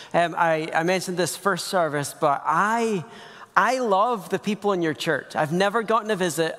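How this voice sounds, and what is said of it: Scottish accent. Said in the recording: “I'm Scottish. ... It's just a funny accent that makes kids look at me funny.”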